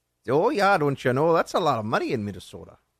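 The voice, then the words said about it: Imperfect Minnesota accent. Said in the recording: “my Minnesota accent ... my Minnesota accent needs work”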